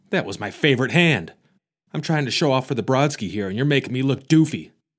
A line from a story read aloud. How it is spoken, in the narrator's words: yells Deadpool